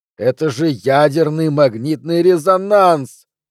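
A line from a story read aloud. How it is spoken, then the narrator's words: Yelling. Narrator (Russian): вопит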